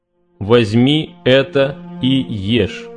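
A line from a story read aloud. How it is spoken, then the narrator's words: Plain. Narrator (Russian): сказал Господь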